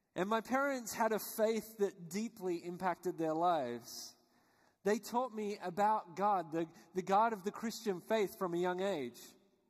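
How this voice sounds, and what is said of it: Australian accent. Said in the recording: “I was born and raised in Australia, which you guessed probably by my accent.”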